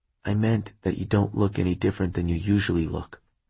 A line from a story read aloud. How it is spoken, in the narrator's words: he said softly